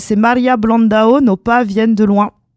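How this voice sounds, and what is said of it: Put-on Brazilian Portuguese accent. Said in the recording (French): “J'essaye de faire un accent ... portugais. ... brésilien, voilà.”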